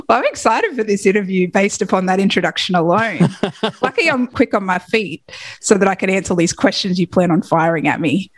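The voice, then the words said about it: Australian accent. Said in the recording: “your accent alone... What's the accent?... I'm Australian”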